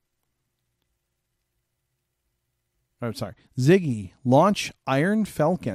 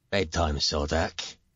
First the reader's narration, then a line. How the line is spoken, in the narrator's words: he grumbles good-naturedly